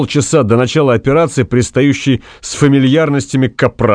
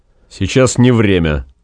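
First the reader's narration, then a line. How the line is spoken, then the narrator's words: Carefully dry. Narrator (Russian): по возможности сухо сказал он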